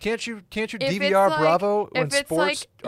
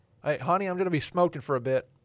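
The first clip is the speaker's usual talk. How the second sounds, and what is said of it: Put-on North Carolina accent. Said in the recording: “Is that your Texas accent? ... I think that was like North Carolina.”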